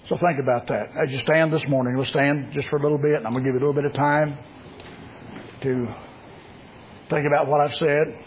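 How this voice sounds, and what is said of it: Strained, rough-sounding voice. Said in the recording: “I apologize for my voice, but I've been coughing constantly for the last 2 days. ... bridge the gap of my voice”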